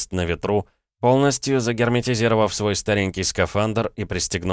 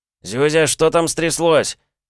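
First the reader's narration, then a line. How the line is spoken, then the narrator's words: Shouted over radio, choked. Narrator (Russian): крикнул по связи техник, почувствовав, как к его горлу подкатывает тугой комок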